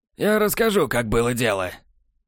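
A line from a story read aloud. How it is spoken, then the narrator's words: Hoarse rasp. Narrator (Russian): прохрипел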